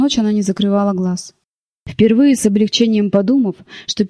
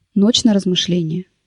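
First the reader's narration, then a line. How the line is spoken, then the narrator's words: Dry, after pause. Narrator (Russian): сухо сказал он, помолчав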